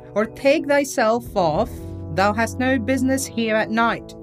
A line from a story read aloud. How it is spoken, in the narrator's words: cried the boy